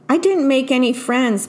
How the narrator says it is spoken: Penelope cried

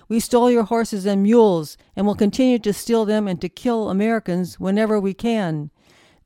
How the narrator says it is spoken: A chief shouted defiantly

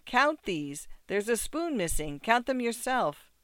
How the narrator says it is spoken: cried in utter dismay

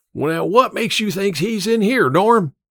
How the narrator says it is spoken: Emma's father yelled again

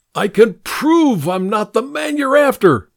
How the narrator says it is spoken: I shouted

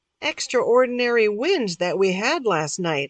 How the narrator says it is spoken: said

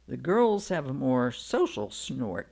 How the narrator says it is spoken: he says

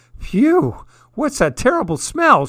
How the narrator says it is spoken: cried

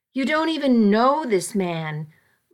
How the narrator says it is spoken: my father had said angrily

